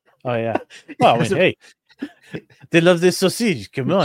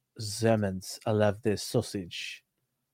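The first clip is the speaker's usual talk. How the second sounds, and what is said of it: Put-on French-sounding accent. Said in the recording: “That was pretty French of you. ... I don't know what accent that was.”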